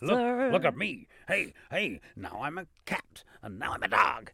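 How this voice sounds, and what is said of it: Exaggerated comic funny voice. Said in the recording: “funny voice ... another funny voice ... a funny voice”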